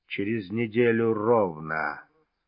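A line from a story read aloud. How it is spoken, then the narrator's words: Husky accented voice. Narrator (Russian): хрипловатый с легким акцентом голос басмача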